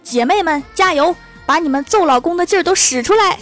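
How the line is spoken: Urgent loud shouting. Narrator (Chinese): 旁边的女领导急了，扯着嗓门大喊

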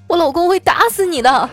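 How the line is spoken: Crying. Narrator (Chinese): 他眼中啊带着泪光，哭着对我说

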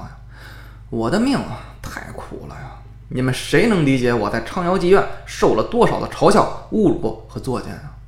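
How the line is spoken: Miserable, sighing lament. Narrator (Chinese): 他凄惨长叹道

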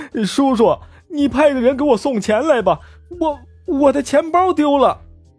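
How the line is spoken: Tearful voice, phone. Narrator (Chinese): 他的侄子就带着哭腔给他打电话说

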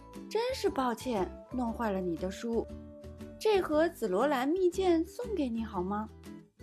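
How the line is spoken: Gentle. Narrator (Chinese): 皇后温柔地说

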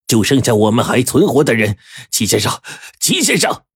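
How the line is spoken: Frantic roaring. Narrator (Chinese): 黄队发疯似的咆哮

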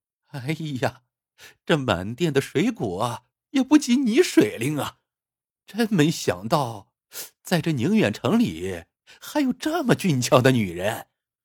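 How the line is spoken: Flirtatious, joking. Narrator (Chinese): 魏祖明 嬉皮笑脸道

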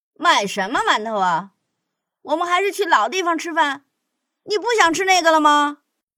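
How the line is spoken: Chuckling. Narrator (Chinese): 老大……嘿嘿笑了

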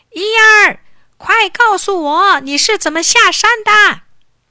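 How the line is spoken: Wild shouting from afar. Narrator (Chinese): 财主在山顶狂喊

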